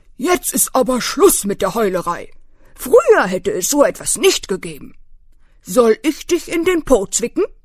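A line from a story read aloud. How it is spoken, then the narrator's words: Stern old beetle. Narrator (German): der alte Hirschkäfer … sagte streng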